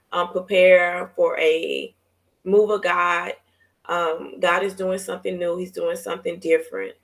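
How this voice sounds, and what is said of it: Tired, strained voice. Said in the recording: “my voice is just changing because I'm exhausted”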